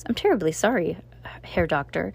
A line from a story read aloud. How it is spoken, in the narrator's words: said nervously